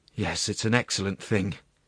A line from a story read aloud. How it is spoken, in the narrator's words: sighed the presiding judge